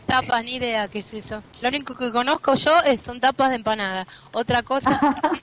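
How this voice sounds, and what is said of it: Argentine Spanish accent. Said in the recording (Spanish): “¿ ... sos argentina? ... Se nota. ... Acento, ¿eh?”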